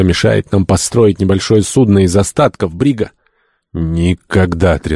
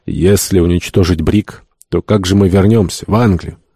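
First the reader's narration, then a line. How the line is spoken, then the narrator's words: Calm, composed voice. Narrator (Russian): Гатерос овладел собой и, помолчав несколько минут, спокойным голосом сказал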